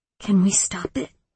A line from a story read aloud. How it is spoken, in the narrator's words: Luna whispered